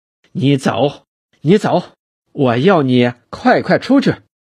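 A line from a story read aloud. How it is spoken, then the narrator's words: Pained and angry. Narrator (Chinese): 万寿年痛苦而激怒地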